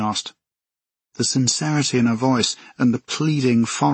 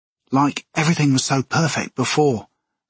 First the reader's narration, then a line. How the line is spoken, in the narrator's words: Alexa said, her voice still gentle and coaxing